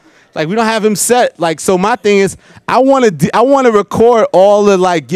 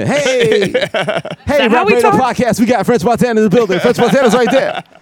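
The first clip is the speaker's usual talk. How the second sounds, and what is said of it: Mock radio announcer voice. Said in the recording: “Radio voice?”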